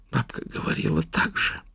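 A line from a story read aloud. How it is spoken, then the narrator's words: Whisper. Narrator (Russian): прошептала она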